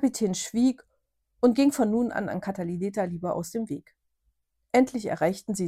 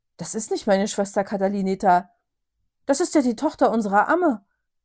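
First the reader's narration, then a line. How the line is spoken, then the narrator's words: Astonished exclamation. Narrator (German): Bernadette, der neben dem König stand, rief erstaunt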